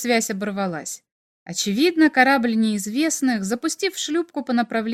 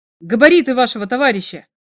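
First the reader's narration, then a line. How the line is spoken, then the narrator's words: Shout. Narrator (Russian): крикнул Игорь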